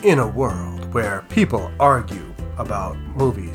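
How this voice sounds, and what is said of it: Movie trailer announcer voice. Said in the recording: “announcer voice ... Nobody wants to hear your announcer voice.”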